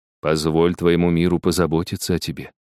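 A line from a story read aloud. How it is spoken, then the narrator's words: Quiet reply, guardian angel. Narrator (Russian): тихо отозвался ангел-хранитель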